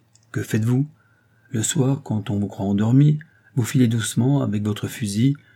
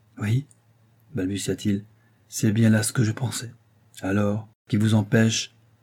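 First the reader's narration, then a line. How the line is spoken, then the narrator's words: Sighing, very low murmur. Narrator (French): ne put retenir un gros soupir, et bien bas il murmura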